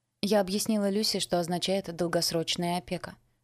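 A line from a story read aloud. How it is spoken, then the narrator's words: Plain. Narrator (Russian): сказала мне Лили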